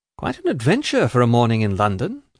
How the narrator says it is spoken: said Richard with a sigh

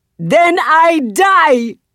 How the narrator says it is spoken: Zaylee yells back

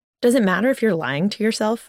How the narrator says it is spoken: I asked Wilson

